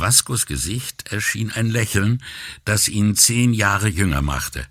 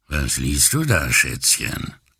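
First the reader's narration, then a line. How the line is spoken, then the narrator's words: Deep male voice. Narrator (German): fragte er mit tiefer Stimme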